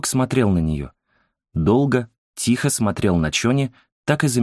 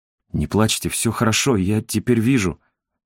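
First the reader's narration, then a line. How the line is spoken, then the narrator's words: Trembling voice. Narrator (Russian): дрожащим голосом повторил Инсок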